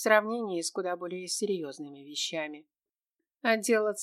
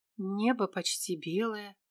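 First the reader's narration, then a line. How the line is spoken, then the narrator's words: Involuntary breathy exhale. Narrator (Russian): выдохнула невольно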